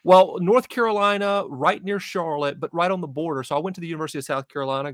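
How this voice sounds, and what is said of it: Carolina Southern accent, not New England. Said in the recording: “people hear my accent and go, not exactly a New Englander”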